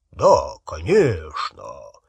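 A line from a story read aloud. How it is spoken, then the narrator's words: Low-voiced answer. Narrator (Russian): низким голосом Ранкорна ответил Гарри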